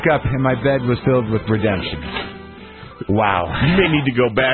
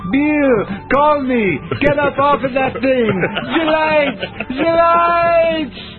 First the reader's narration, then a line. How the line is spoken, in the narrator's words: Hissing, Butch yells